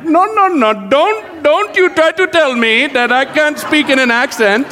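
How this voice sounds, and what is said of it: Weak put-on Indian accent. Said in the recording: “I can kind of do like an Indian accent ... I know that's a pathetic accent”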